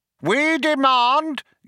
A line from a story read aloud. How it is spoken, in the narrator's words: yelled Vroom Fondle